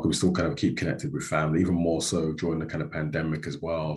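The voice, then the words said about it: London accent. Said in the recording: “I've not lost my London twang.”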